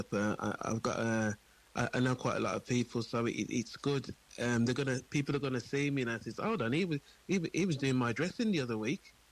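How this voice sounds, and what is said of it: Birmingham English accent. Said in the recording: “coming from a different city, Birmingham, as you can probably tell”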